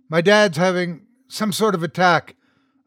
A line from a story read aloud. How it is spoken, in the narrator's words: I blurted out